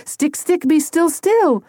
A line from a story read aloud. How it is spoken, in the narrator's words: Tony yelled